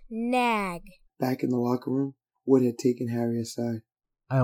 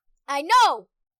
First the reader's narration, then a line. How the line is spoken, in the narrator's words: Ron snapped